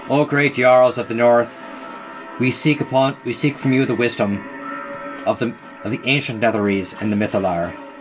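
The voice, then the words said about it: Put-on Norse accent, Swedish-chef style. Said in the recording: “I'll just switch to like my best Norse accent for that one ... Swedish chef through and through”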